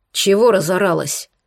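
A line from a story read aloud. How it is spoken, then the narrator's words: Harsh bark. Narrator (Russian): рявкнул он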